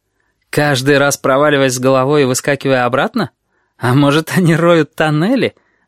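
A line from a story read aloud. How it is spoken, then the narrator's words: Laughing. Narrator (Russian): рассмеялся неизвестный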